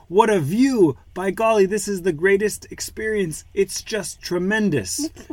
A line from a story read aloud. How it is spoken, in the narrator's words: he exclaimed